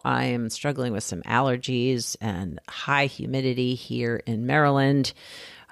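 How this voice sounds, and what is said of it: Scratchy voice. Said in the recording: “my voice is a little scratchy right now ... don't sound like myself”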